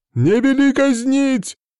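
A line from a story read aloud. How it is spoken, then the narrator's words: Shout. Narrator (Russian): закричал тот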